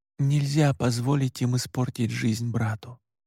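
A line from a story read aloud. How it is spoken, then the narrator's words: Tearful whisper. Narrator (Russian): прошептал я, вытирая слезы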